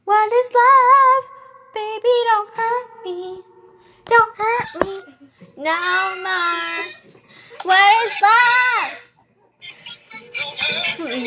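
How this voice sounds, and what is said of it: Hoarse singing voice. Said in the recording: “My voice is getting hoarse.”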